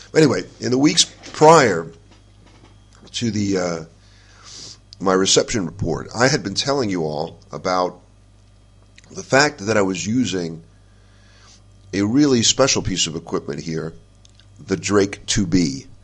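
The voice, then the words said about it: Congested voice from a cold. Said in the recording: “I've got a cold.”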